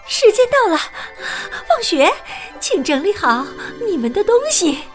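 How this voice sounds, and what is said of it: Trembling voice. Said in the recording (Chinese): “用颤抖的声音说”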